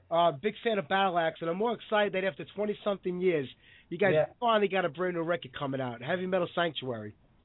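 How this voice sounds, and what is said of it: Hoarse, sick-sounding voice. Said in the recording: “I'm sick as a dog, so my voice is kind of shot”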